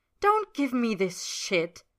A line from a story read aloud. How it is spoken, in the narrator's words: Ed snaps, cutting Roy off mid-sentence